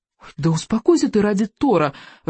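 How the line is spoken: Pleading. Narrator (Russian): взмолился Рыбьенок

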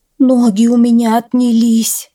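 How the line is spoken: Moaning mare. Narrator (Russian): стонала кобыла

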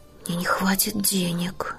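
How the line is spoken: Whisper. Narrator (Russian): шепнул он Эдварду

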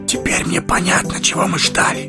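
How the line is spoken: Rapturous whisper. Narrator (Russian): Восторженно Фродо шепнул Гэндальфу

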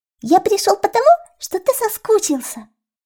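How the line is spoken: Squeaked. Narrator (Russian): Еще раз пропищал он

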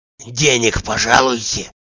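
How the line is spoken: Whisper. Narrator (Russian): шептал Захар

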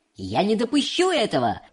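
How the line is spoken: Shouting. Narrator (Russian): Закричал мистер Вонка

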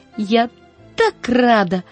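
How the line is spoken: Exclamation. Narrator (Russian): воскликнула она

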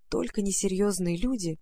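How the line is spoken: Hurried whisper. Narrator (Russian): Мамина половинка едва успела шепнуть

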